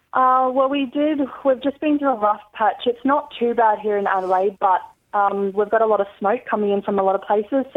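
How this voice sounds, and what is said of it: Australian accent. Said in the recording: “your lovely Australian accent”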